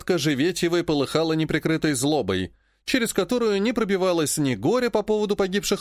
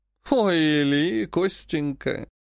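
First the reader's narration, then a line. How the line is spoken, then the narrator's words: Mocking. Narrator (Russian): насмешливо сказала Живетьева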